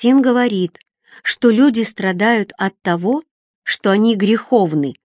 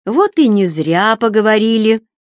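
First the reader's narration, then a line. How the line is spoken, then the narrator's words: Laughing. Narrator (Russian): рассмеялся Эггард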